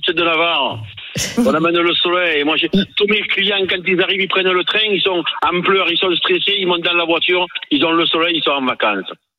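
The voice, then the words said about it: Regional French accent. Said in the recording (French): “c'est une fierté pour vous, votre accent ... Moi, je suis fier de mon accent”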